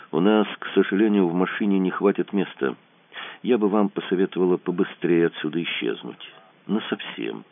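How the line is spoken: Quiet speech. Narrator (Russian): Даша тихо сказала

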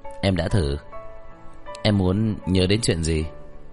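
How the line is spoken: Teasing. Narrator (Vietnamese): anh nhướng mày nhìn Hàn Mạc nói với giọng trêu chọc

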